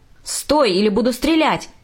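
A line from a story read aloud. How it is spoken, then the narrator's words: Shout. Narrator (Russian): кричал полицейский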